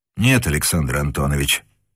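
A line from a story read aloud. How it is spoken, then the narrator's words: Quiet reply. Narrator (Russian): также негромко ответил Невельской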